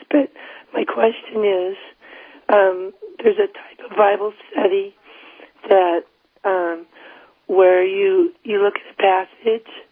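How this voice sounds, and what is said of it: Hoarse, strained voice. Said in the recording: “excuse my voice. I have laryngitis,”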